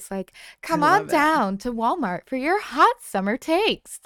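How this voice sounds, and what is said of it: Commercial announcer voice. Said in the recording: “Announcer voice.”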